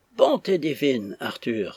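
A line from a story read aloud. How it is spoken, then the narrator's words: Exclaimed. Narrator (French): s'écria Flora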